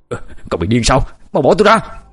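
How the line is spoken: Loud startled yell. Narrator (Vietnamese): Quyết bất ngờ bị Quang cản lại thì hét lớn

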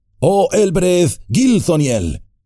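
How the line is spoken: Loud cry. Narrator (Spanish): Frodo se oyó gritar en voz alta

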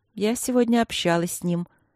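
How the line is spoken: Surprisingly calm. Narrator (Russian): на удивление спокойно сообщила Василина

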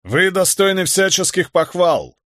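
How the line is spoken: Resonant solemn pronouncement. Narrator (Russian): изрек своим звучным голосом граф

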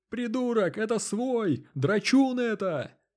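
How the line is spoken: Panicked shrieking. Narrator (Russian): заполошно завизжали

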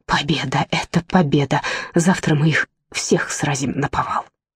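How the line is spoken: Whispered. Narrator (Russian): Гэри прошептал

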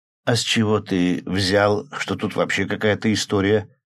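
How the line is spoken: Sleepy stretching mutter. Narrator (Russian): сонно пробормотал, потягиваясь

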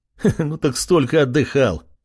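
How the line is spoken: Chuckling. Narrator (Russian): хохотнул он

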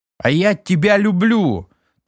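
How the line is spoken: Loud, unabashed. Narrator (Russian): Так же громко сказал ничуть не смутившийся Сергей

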